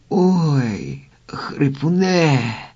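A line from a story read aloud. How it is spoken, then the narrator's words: Groaning. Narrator (Ukrainian): простогнав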